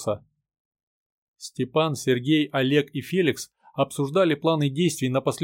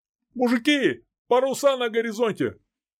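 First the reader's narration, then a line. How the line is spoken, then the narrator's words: Excited shout. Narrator (Russian): взволнованно закричал Петр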